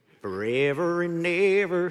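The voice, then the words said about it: Sung with a put-on country accent. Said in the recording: “Don't you hear a country song in there? ... it's my best country accent”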